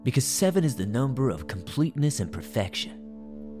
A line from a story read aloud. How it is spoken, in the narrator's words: he murmured